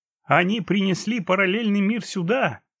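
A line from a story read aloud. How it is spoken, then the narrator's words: Laughing. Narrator (Russian): смеясь сказал Патрик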